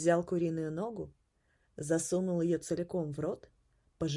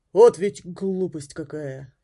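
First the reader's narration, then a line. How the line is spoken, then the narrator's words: Sighing. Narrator (Russian): Грегори вздохнул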